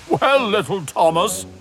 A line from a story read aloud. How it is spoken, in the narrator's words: chuckled Gordon